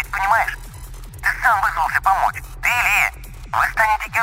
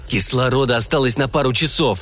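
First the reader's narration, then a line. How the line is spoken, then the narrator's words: Hoarse rasp over microphone. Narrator (Russian): прохрипел Сэм в микрофон и усмехнулся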